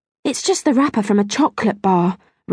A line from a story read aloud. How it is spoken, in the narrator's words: Rachel said sadly